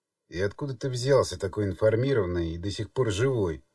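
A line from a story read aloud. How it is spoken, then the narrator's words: Grumbling man. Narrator (Russian): буркнул дядечка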